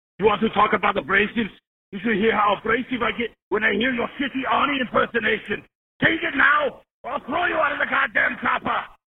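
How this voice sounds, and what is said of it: Arnold Schwarzenegger impression, throaty. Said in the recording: “best impression we've had on the hotline ... He sounded like he had a little bit of glug in his throat”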